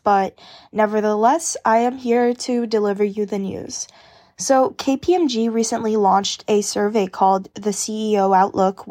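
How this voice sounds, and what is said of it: Slightly sick-sounding voice. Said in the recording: “I am a little bit sick. I don't know if you can tell by my voice,”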